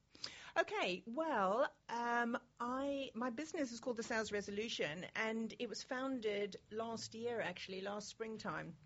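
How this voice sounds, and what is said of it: South African accent. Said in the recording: “I think people will notice that you are, in fact, South African”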